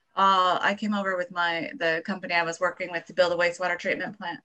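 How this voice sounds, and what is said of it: American accent. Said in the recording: “You have an accent. ... Born and raised in America.”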